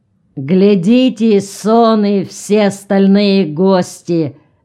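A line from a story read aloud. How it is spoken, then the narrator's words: Drunken shout. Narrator (Russian): закричал пьяным голосом Ильмач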